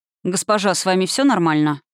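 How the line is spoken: Dry inquiry. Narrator (Russian): Сухо поинтересовался один из идущих за фиолетовым Лио телохранителей

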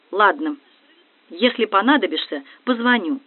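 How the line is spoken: Gloomy, having learned nothing. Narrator (Russian): Понимая, что практически ничего не узнала, я мрачно сказала

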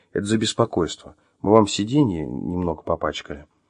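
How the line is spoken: Explaining. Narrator (Russian): пояснив

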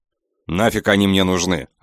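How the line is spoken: Snapped. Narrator (Russian): огрызнулся я

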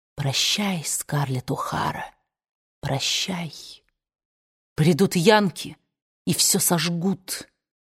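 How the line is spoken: Inner voice whispering. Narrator (Russian): кровная часть ее души шептала ей

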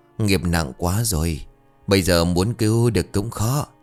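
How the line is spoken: Sighing. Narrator (Vietnamese): ông thầy Lăng thở dài rồi bảo

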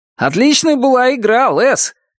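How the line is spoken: Shouted from behind. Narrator (Russian): крикнул Билл Макфарланд с заднего сиденья

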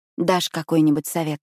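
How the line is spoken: Weak hoarse question. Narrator (Russian): спрашиваю слабым и хриплым от криков голосом

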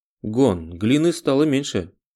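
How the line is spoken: Exclaimed. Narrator (Russian): воскликнула Тина

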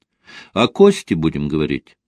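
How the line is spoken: Plain question. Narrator (Russian): спросила Ольга

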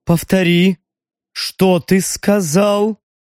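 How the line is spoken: Dull, low, menacing. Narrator (Russian): В звенящей тишине глухо прозвучал голос старшего

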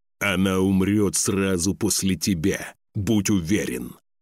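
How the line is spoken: Growling. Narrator (Russian): рыкнул Лейф

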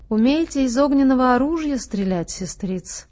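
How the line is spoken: Plain. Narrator (Russian): спросил Ленточкина грива

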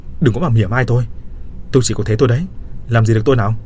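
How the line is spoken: Angry flustered shout. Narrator (Vietnamese): Tôi đỏ mặt tía tai quát

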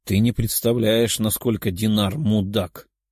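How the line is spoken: Sighing. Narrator (Russian): вздохнулся

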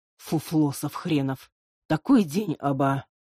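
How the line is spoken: Sad. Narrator (Russian): грустно произнес Макс

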